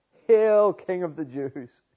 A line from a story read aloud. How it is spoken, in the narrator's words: the soldiers who mock him, who laugh at him saying